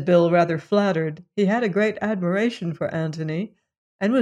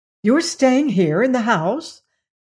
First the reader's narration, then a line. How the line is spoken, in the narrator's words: said Bill eagerly